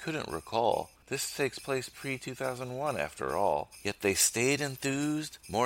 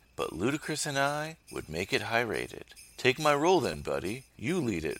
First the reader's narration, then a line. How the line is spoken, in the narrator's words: Vin says